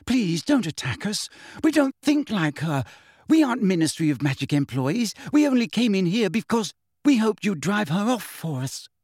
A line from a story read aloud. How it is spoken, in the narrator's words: said Hermione breathlessly